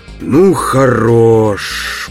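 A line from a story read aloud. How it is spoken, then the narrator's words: Hoarse, impatient rasp. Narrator (Russian): прохрипел, наконец, Барни, у которого начало истощаться терпение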